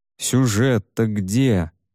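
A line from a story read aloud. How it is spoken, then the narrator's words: Grumbling. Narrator (Russian): ворчал Люсинь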